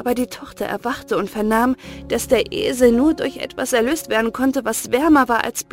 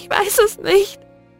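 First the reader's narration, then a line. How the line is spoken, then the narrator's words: Sobbing. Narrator (German): schluchzte sie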